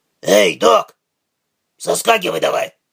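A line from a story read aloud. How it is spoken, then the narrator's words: Hoarse. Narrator (Russian): хрипло сказал Тайкус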